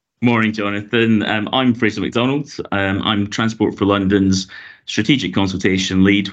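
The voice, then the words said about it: Scottish Glasgow accent. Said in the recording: “you might have guessed from my accent, I'm originally from Glasgow in Scotland”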